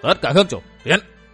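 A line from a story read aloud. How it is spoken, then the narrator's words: Loud commanding call. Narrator (Vietnamese): Giang Nam đường chủ Huyết Ma Bang Cửu Kỳ cao giọng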